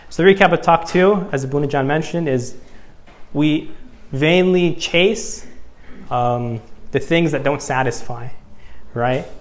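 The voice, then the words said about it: American accent. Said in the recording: “I'm American by the way, if you couldn't tell by my accent”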